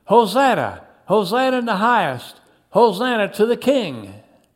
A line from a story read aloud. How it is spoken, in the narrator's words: They continued shouting